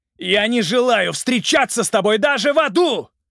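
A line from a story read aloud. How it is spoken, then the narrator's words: Roaring man from above. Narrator (Russian): проревел мужчина сверху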